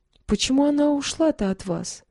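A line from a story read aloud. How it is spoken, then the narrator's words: Plain. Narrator (Russian): спросил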